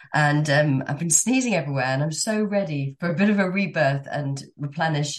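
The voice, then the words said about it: Sick, congested-sounding voice. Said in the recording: “you can probably hear by my voice, I'm just coming out of a really nasty 48 hour, I don't know, bug.”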